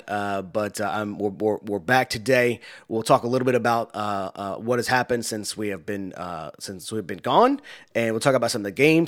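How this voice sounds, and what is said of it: Strained, partly lost voice. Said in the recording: “it was very, very difficult for me to talk. I was losing my voice. ... As you can probably hear, I'm not still fully over it”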